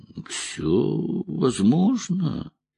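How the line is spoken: Drawling. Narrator (Russian): протянул он

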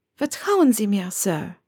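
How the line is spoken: Warm reply. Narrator (German): entgegnete mit warmer Stimme

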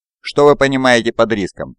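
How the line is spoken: Sharp question. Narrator (Russian): резко спросил Нанский

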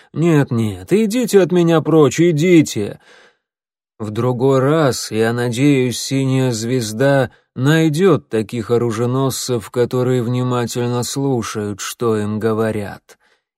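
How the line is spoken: Good-natured grumble. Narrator (Russian): Глашатый добродушно проворчал

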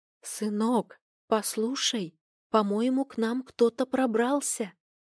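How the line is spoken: Whispered. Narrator (Russian): прошептала она

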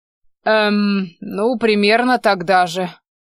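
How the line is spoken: Evasive grumble. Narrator (Russian): уклончиво пробурчал

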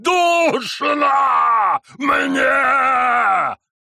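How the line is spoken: Wilder shout. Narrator (Russian): Еще дичи закричал он

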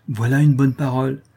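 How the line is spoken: Exclaiming. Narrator (French): s'écria Mirmont

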